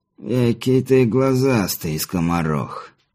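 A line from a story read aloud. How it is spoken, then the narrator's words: Hoarse cracked voice from darkness. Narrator (Russian): послышался из темноты спереди хриплый надтреснутый голос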